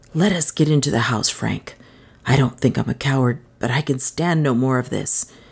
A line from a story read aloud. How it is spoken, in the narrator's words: whispered